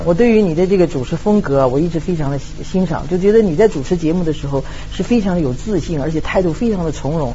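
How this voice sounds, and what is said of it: Mainland Mandarin, official-sounding tone. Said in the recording (Chinese): “而且你说话呢，我怎么觉得像大陆领导跟我说话呢？... 他没有台湾口音呢”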